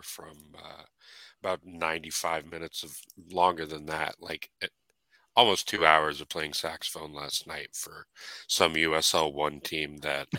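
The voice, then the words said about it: Slightly hoarse voice. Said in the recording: “if I sound a little hoarse ... My throat's a little sore”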